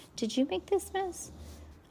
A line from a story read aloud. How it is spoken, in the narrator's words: Miss Wally said in a gentle tone